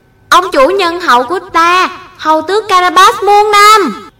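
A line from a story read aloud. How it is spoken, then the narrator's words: Peasants cheering loudly. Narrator (Vietnamese): những người nông dân, lớn tiếng hô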